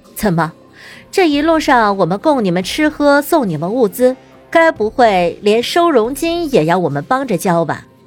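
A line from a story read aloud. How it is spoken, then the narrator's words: Sarcastic. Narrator (Chinese): 林鸾挑眉，眼带讽刺的道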